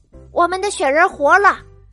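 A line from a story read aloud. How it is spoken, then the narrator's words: Roaring monster. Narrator (Chinese): 大脚怪龙吼叫着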